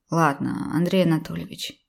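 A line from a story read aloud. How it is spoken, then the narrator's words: Tired. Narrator (Russian): устало произнес я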